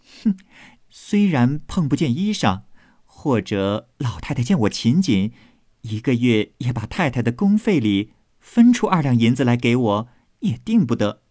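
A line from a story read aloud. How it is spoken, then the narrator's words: Sneering. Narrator (Chinese): 晴雯冷笑道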